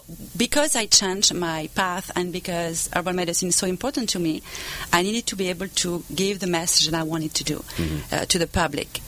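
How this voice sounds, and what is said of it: Non-native accented English. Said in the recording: “I put that on my accent.”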